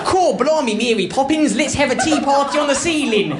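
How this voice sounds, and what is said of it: Exaggerated stereotypical English accent. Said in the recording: “I, I can't even do the English one... apparently I should be talking like this... I'm gonna go home talking like that”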